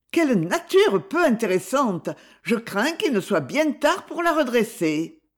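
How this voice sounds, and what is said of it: Disdainful tone. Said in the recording (French): “avec un accent de dédain”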